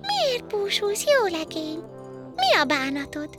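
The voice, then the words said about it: Tinkling, bell-like little girl's voice. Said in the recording (Hungarian): “Meg is szólítja a kislány csengettyű hangon.”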